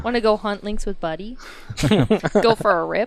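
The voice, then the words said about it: Put-on Canadian accent. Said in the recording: “You gotta say the Canadian accent.”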